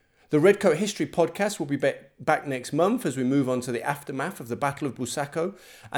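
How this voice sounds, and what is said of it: East Midlands English accent. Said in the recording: “my beautiful East Midlands accent”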